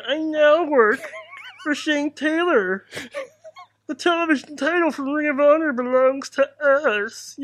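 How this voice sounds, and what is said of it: Weird preacher-like character voice. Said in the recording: “weirdest preacher voice”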